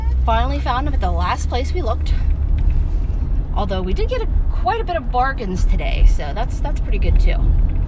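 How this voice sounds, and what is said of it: Slightly out of breath. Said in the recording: “I'm a little out of breath. I've been running.”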